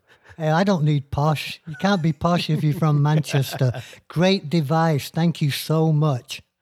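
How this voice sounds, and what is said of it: Manchester English accent. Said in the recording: “people will be able to understand my accent even better”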